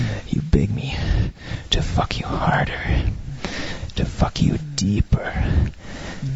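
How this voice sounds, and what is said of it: Usual voice. Nothing is said of it.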